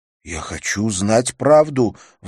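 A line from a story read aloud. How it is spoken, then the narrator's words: Agitated. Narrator (Russian): взволнованно сказал Жак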